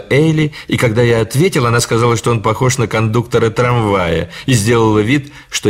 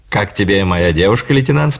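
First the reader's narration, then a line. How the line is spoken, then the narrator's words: Plain question. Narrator (Russian): спросил он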